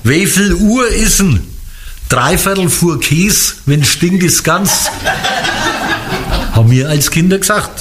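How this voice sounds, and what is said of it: Franconian German dialect. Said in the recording (German): “welcher bayerische Dialekt ist denn das jetzt? ... das ist fränkisch”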